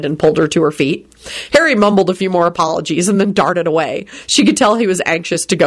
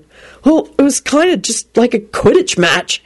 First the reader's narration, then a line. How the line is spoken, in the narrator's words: Harry blurted out desperately